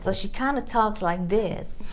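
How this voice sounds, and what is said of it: Put-on American accent. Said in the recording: “she has picked up an American Dutch accent ... So where did she get her American accent?”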